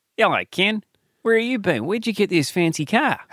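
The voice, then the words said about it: Margot Robbie's Australian accent. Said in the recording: “Margot Robbie, yeah, mate ... Margot Robbie. Jeez, your accent is so beautiful.”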